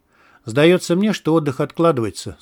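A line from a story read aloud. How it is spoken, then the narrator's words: Even tone. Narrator (Russian): сказал он ровным тоном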